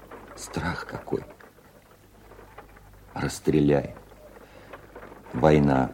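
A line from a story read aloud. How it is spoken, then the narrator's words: Old veteran's voice. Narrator (Russian): стариковским голосом обстрелянного служаки ответил Володя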